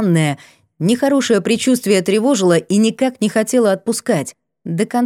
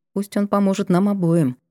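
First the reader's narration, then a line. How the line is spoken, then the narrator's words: Barely audible mumble. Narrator (Russian): пробормотала чуть слышно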